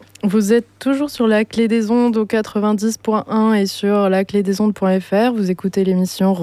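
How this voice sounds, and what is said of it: Usual voice. Nothing is said of it.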